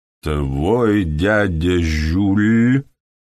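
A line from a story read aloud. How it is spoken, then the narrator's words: Drawn-out, thoughtful. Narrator (Russian): протянул Морган задумчиво в наступившем странном молчании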